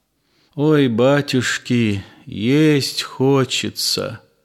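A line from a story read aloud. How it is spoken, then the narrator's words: Dejected weak voice. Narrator (Russian): сказал упалым голосом один мужик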